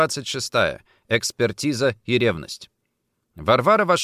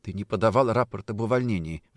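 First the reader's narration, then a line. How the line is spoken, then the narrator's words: Quiet. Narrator (Russian): сказала тихо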